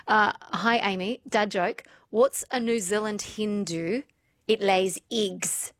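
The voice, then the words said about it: Poor put-on New Zealand accent. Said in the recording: “I need to put on my best Kiwi accent. ... I'm horrible and hopeless at it.”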